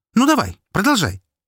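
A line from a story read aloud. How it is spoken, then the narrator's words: Sharp. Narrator (Russian): резко произнесла Настя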